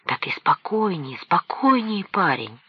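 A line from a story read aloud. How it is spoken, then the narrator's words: Said, then whispered. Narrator (Russian): сказал он почти с полупоклоном и зашептал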